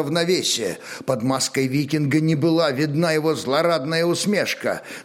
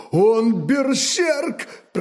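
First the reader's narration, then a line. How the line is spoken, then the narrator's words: Moan of surprise and pain. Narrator (Russian): простонал, падая с выпученными одновременно от удивления и боли очами конунг Гунтер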